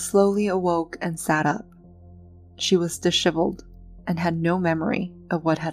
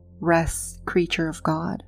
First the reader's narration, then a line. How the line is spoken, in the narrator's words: said quietly